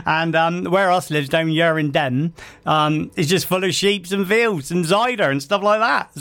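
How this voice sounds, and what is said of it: Put-on Devonshire West Country accent. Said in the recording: “I've got a very good Devonshire accent, as you can tell”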